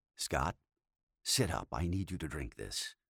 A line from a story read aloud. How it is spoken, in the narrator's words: Jason said softly